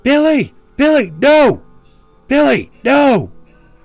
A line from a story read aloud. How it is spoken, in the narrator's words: she's yelling